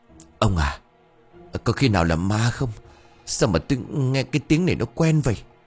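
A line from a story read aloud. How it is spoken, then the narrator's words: Stammering. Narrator (Vietnamese): bà bá lắp bắp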